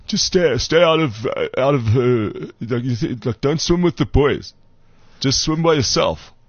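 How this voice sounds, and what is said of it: Nick Mallett impression. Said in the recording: “I'm trying to do a Nick Mallett accent.”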